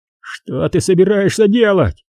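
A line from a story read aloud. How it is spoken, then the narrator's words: Shouting. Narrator (Russian): закричал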